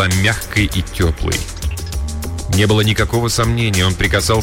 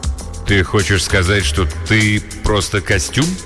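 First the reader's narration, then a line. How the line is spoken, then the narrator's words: Cheerful laughter. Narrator (Russian): Она весело рассмеялась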